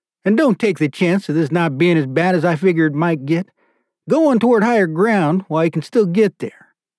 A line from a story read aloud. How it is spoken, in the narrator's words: begged